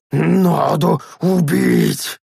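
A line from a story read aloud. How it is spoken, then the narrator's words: Furious hiss. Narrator (Russian): С яростью прошипел сгарх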